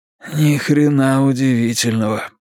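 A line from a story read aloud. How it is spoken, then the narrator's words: Wheezed. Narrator (Russian): просипел Ричи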